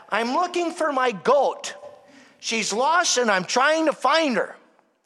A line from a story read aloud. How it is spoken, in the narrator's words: a hermit shouted back